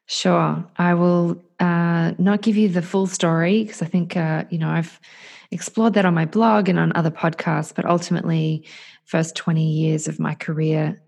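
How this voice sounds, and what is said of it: Australian accent. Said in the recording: “the Australian lovely accent that I'm hearing across”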